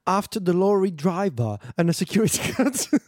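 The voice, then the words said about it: Poor put-on English accent. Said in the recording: “Was that your English accent? ... the worst one.”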